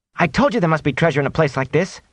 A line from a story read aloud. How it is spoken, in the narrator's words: Matt exclaimed